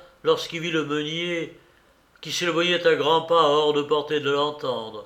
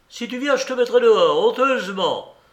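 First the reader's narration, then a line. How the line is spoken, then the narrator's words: Exclaimed. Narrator (French): s'écria M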